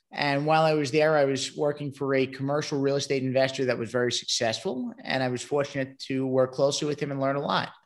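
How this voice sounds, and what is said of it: Brooklyn, New York accent. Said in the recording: “originally, I come from Brooklyn, New York. The accent might give it away.”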